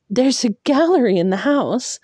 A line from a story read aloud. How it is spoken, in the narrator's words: blurted